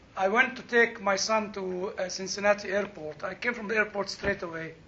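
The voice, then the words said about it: Speaks with a strong accent. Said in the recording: “I will come back to my real accent... we don't have Bob Walters here to translate my accent. My accent has been a great problem.”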